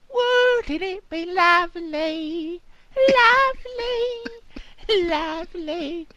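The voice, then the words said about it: Sung put-on Cockney accent. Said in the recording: “It's like a Cockney.”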